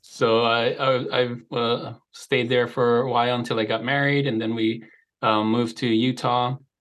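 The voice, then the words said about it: Slight Hawaiian accent. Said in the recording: “I was born and raised in Hawaii, so you may have picked up a slight accent.”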